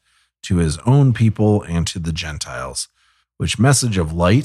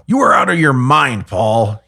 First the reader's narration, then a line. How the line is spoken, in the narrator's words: he shouted